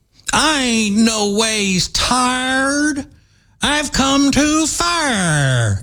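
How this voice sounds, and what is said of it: Hillary Clinton imitating a preacher. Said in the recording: “like Hillary, when she was at the church in Selma, the famous clip of her trying to sound like a black preacher”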